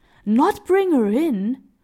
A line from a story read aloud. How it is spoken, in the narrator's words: exclaimed the kind-hearted man